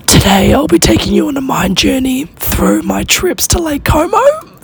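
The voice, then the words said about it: Whispering with a lost, hoarse voice. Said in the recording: “I am going to have to whisper today, do a bit of an ASMR kind of situation, because my voice is completely knackered ... Yesterday I kind of had that sexy, raspy vibe, and now it's just gone to absolute shit”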